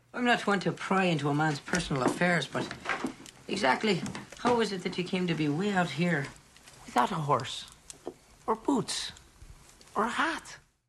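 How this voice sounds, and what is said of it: Dreadful put-on accent. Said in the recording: “Michael J. Fox in Back to the Future Part 3 playing Seamus McFly ... with a pretty dreadful accent. ... Shameful”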